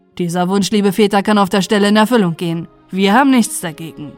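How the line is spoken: Call. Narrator (German): rief

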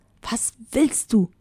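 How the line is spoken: Hissing. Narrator (German): zischte

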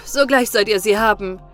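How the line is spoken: Young man calling. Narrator (German): rief der Jüngling

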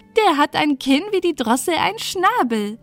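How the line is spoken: Laughing call. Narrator (German): rief sie und lachte

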